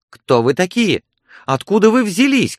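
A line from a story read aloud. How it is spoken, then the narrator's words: Angry shout. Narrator (Russian): крикнула она сердито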